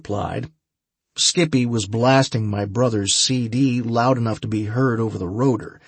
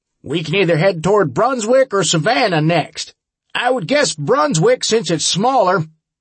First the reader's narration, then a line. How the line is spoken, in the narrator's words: Harbinger shouted over the noise